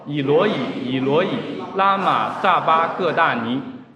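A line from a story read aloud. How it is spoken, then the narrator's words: Loud cry. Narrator (Chinese): 耶稣大声喊着说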